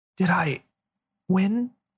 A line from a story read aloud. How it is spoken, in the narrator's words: She asked hoarsely